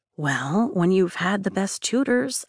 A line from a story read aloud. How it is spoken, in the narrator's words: I whisper